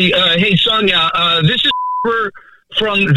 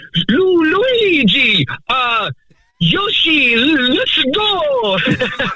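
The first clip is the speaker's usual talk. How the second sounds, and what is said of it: Cartoonish Mario character voice. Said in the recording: “I said I was good at doing the Mario voice ... pretty good, right?”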